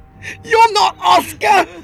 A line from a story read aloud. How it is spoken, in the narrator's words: Arthur screamed with every ounce of willpower he had left